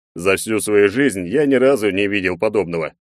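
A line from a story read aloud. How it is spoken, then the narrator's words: Nervous chuckle. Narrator (Russian): нервно хмыкнул Егор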